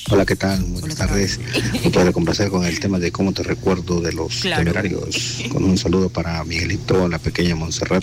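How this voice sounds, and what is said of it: Deep polished radio-announcer voice. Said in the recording (Spanish): “tiene una voz de locutor que qué bárbaro”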